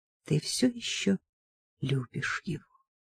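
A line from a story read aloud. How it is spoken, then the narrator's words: Whisper. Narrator (Russian): прошептала Сильви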